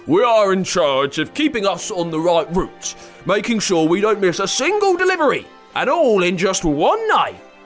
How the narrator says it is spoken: Comet said sternly

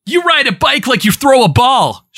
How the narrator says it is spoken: shouted Jason

